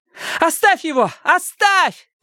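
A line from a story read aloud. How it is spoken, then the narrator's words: Shout. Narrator (Russian): крикнула Робин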